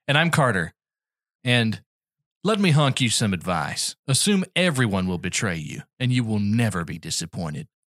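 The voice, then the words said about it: Country accent like Woody Harrelson. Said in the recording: “if Woody Harrelson... it's just a country accent. ... if Woody Harrelson was doing a voiceover for a truck commercial”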